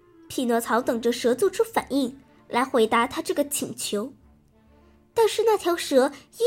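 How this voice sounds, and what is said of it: Usual voice. Nothing is said of it.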